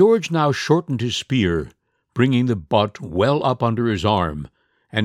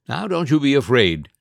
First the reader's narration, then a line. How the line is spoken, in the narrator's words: he said kindly